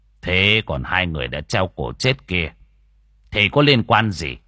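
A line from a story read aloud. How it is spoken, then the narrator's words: Stern. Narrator (Vietnamese): ông thầy Hoàng mới nghiêm giọng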